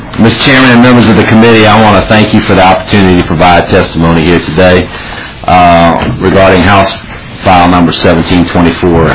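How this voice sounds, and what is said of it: Southern Louisiana accent, fast speech. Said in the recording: “I'm from deep, deep South Louisiana, so if my accent sort of throws you off, I tend to talk too fast”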